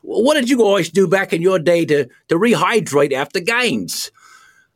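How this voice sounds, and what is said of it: Put-on Australian accent. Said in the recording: “with the Australian accent”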